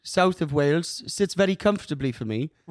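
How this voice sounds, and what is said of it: South Wales accent. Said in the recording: “Do the Welsh accent real quick. ... Welsh accent, ... more towards the front of the mouth”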